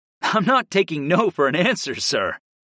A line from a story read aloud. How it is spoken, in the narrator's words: I laughed